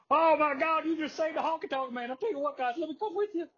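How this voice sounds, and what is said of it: Honky Tonk Man impression, Jimmy Hart-ish. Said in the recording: “that was kind of Jimmy Hart-ish ... hard to do a Honky Tonk Man impression off the top of your head”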